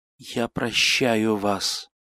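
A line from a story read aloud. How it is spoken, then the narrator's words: Barely audible. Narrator (Russian): сказал он еле слышно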